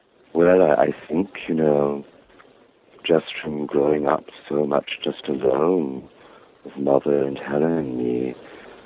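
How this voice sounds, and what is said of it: Unusual, distinctive diction, not Southern. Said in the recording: “I guess because I spoke strangely ... your accent, because if you come from Savannah, I've been to Savannah. That's not a Savannah accent per se. Like, it's a very unique diction.”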